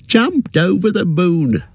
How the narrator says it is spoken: chuckled Merry

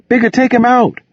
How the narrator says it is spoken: Vera begged again

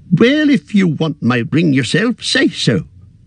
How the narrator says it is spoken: cried Bilbo

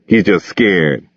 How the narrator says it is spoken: Bigger said

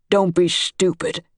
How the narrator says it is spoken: Dad said

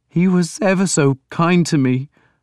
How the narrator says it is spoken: Breeder sobbed

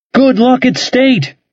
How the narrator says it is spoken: yelled in his ear

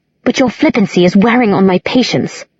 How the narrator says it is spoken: Alec said tightly

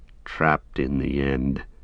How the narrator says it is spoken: said Sam bitterly, his anger rising again above weariness and despair

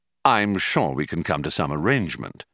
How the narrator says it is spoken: said Ford

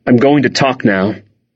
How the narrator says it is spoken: I said

